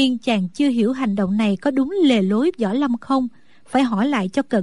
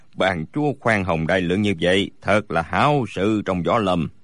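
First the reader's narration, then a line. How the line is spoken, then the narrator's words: Smiling reply. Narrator (Vietnamese): Bối Hải Thạch mỉm cười đáp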